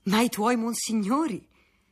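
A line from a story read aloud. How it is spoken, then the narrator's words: Smiling exclamation. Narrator (Italian): esclamò egli sorridendo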